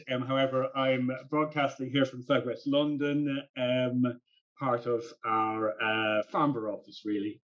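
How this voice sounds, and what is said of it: Irish accent. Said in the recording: “you prefer to be in Ireland ... I haven't quite worked out how to disguise my accent.”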